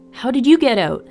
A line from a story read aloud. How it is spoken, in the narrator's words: Seb cried